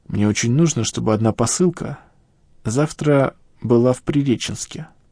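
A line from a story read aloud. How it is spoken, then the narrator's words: Plain. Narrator (Russian): сказал мужчина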